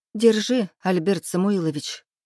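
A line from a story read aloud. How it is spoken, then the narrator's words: Breathless exhale. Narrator (Russian): выдохнула я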